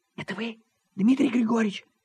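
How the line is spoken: Whispered female question. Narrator (Russian): спросил женский шепот

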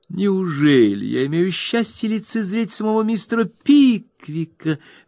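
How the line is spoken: Exclamation. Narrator (Russian): воскликнула миссис Лио Хантер

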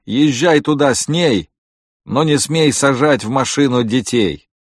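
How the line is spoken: Shout. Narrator (Russian): крикнув

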